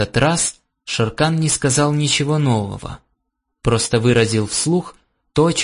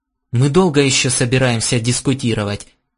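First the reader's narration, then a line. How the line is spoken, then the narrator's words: Irritated question. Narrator (Russian): раздраженно поинтересовался Гордон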